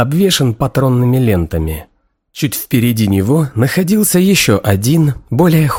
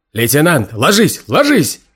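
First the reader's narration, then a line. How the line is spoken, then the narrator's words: Yelling. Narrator (Russian): заорал Майерс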